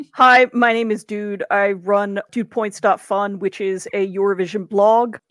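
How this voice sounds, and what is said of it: American accent. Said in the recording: “as we could probably tell by your accent, you are American born”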